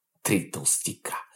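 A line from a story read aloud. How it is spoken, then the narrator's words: Snort. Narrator (Russian): Дмитрий хмыкнул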